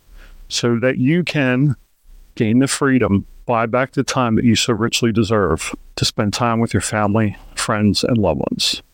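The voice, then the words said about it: Gravelly morning voice. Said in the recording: “my voice was a little gravelly today ... that's the way, the way it goes in the morning”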